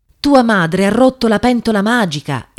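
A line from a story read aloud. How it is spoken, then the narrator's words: Mother's exclamation. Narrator (Italian): esclamò la madre di Chukwudi rivolta al nipote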